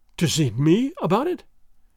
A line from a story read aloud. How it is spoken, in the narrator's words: gasped Don Carlos, with something of fear and a great deal of hope in his breast